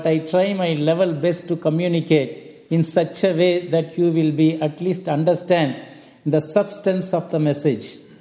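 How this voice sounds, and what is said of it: Noticeable non-local accent. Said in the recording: “my accent is entirely different from yours”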